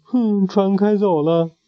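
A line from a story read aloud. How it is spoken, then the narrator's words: Crying. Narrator (Chinese): 安妮哭着说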